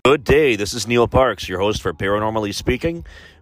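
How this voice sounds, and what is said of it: Slightly congested voice. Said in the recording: “my voice is a little off today. It sounds okay on my end, but I'm having some sinus issues ... I get congested a little bit, have difficulty breathing”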